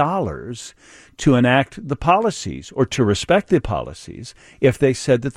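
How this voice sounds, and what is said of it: Usual voice. Nothing is said of it.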